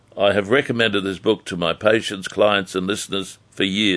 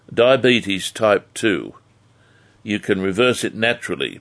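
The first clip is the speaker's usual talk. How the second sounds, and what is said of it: Slow, deliberate speech. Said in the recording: “I'll say it slowly,”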